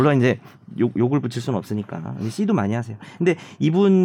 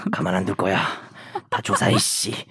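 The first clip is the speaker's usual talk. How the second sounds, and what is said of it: Angry-sounding imitated voice. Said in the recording (Korean): “성대모사 ... 화가 나 있어 항상.”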